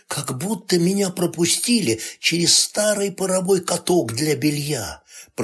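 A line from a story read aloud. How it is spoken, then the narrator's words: Whispered. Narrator (Russian): прошептала она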